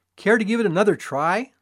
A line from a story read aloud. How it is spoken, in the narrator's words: I said